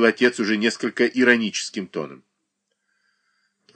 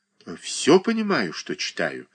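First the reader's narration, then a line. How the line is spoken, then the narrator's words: Hesitant reply. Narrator (Russian): ответил сын тем нерешительным тоном, каким отвечают на неопределенные вопросы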